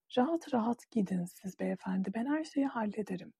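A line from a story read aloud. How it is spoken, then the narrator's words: Whispered. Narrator (Turkish): diye fısıldadı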